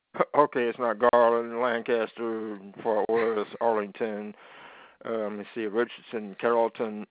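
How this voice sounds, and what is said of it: Dallas, Texas accent. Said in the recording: “That's where I'm from... Can you tell by the accent?”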